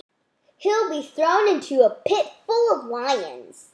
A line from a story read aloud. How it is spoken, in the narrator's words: added the governor excitedly